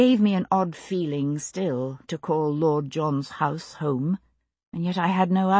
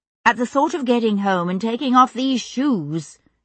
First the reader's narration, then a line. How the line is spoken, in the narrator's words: I said hastily